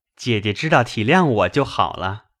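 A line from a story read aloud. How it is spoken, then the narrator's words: Laughing. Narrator (Chinese): 宝玉又笑道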